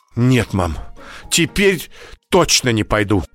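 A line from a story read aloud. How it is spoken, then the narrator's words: Frightened. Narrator (Russian): испуганно сказала Даша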